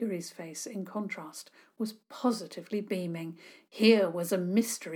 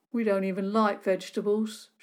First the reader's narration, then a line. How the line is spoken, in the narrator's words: Sean said gloomily